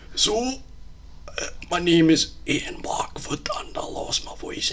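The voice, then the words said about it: Hoarse Scottish Ian Blackford impression. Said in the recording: “hoarse. Hoarse things ... Wow, that's actually a really good impression ... he's Scottish, isn't he?”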